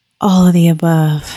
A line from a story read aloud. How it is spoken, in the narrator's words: I moaned